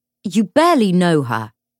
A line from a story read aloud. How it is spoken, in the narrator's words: James snapped